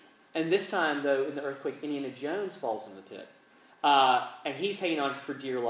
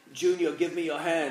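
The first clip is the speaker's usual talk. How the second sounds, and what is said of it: Terrible put-on Scottish accent. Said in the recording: “A terrible Scottish accent.”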